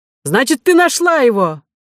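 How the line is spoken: Joyful shout. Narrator (Russian): закричал радостно Милодар

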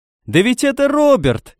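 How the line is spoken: Shouted from behind. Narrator (Russian): крикнули сзади

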